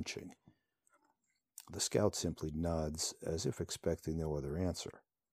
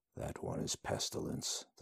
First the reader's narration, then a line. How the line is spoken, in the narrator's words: the scout mutters